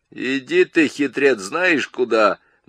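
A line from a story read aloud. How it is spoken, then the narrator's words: Mocking. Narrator (Russian): насмешливо сказал О'Брайен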